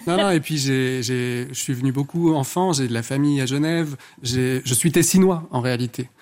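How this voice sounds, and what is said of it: Thick Ticino Swiss-Italian accent. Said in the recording (French): “d'où l'accent... C'est cet accent à couper au couteau... Du lac de Lugano.”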